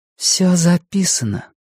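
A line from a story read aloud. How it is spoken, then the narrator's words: Breathed out. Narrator (Russian): выдохнула Фрэнни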